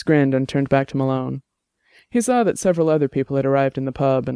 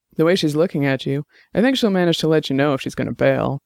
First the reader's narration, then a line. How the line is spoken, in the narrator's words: Malone said